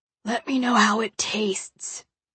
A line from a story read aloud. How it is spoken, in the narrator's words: he whispers hoarsely